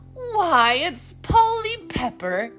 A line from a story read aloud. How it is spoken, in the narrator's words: exclaimed Mrs